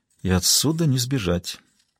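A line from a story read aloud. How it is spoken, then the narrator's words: Quiet remark. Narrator (Russian): тихо заметила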